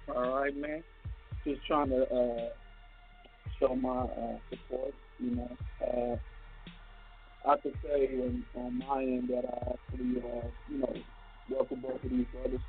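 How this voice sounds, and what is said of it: Robotic, distorted speakerphone voice. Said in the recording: “You sound like a robot ... You sound like a robot ... Take it off speakerphone”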